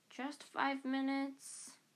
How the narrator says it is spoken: Harry pleaded

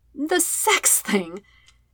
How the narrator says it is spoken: He laughs outright

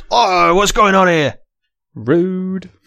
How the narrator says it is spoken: Rich Green shouts

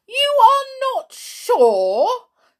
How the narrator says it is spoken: said Matron loudly so everyone could hear

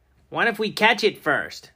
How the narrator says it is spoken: Ernie called out

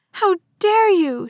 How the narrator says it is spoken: shouted

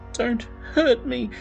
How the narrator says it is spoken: whimpers

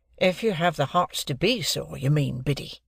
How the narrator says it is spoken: said I, in a virtuous and superior tone

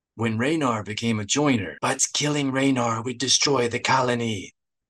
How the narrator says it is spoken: Teezar rasped

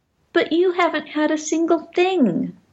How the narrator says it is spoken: Benny suddenly cried with contrition

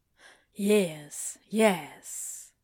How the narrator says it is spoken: Crowley says softly

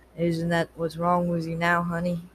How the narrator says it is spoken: he asked

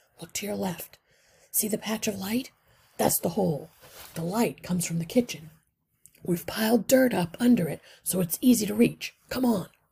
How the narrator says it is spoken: said softly

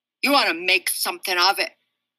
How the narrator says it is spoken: Daniel asked in his best tough guy voice

